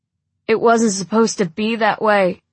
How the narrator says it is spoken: he moans

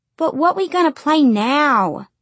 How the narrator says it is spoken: Patsy Ruth whined

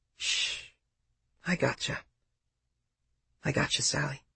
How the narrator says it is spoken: she was whispering

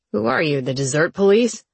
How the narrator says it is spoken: She laughed

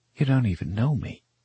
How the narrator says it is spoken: she gasps

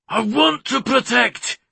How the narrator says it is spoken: He bellowed to no one

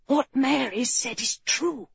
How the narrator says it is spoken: he whispered

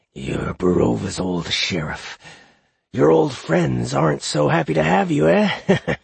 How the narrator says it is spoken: He cackled bleakly

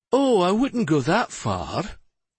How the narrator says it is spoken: Lady Serana said with a chuckle

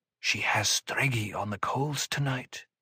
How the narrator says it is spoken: Someone behind Odraid whispered

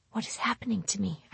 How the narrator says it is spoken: I whispered, my mouth dry

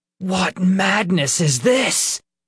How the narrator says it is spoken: Peter hissed

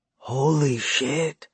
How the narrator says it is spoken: he said under his breath

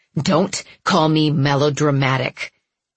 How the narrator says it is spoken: I said through clenched teeth

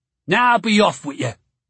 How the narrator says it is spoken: he said gruffly

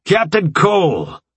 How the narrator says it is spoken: General Breaker shouted through the hubbub

